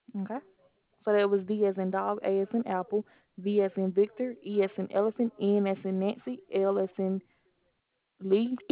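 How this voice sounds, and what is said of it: Southern American accent. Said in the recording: “Are you from the South? ... Yes, ma'am, I am. ... I like the accent.”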